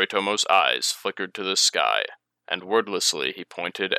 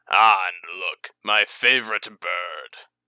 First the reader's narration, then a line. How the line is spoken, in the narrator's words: chuckled